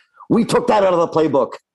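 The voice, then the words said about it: Aggressive imitation of another person's voice. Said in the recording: “He would say it that aggressively too. That's good imitation.”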